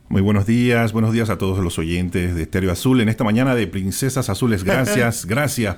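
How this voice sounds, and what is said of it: Radio announcer voice. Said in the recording (Spanish): “tiene voz de locutor. Eres locutor y tiene voz de locutor.”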